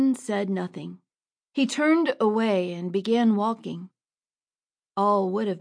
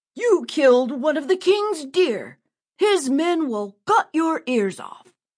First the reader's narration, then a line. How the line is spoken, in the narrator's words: Another man shouted